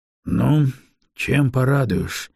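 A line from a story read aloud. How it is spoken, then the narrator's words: Tired question. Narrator (Russian): устало поинтересовался Грон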